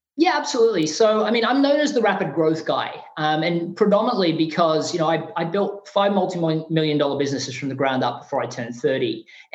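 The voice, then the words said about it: Non-American accent. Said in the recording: “you're not originally from the United States. You can tell by your accent.”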